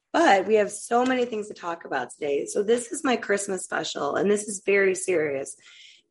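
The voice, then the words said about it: Sick-sounding voice. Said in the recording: “I'm a little sick today, so you will hear that in my voice”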